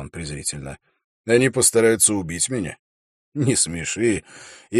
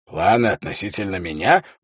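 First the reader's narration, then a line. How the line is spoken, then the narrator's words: Hoarse rasp. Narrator (Russian): прохрипел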